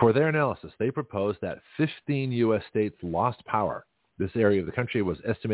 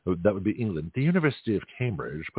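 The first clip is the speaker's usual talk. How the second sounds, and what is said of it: Put-on posh British accent. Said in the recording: “my masterpiece theater accent”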